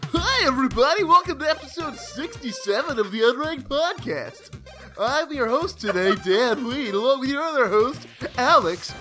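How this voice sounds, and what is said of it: Cartoonish cheesy game show host voice. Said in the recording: “you actually sound like a cartoon ... it's pretty good ... I was going for crappy game show host”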